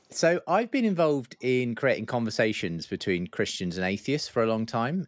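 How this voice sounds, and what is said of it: English accent, near London. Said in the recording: “you're in England somewhere, I can tell by the accent. I'm going to guess London”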